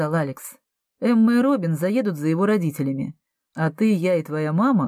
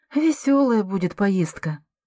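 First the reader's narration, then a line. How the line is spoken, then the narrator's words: Sighing. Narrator (Russian): вздохнула Андреа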